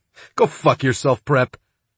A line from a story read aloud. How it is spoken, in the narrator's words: King said, although he was laughing when he said it